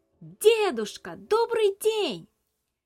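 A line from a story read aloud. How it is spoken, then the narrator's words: Shouting as loud as possible. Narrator (Russian): Илья крикнул так громко, как только мог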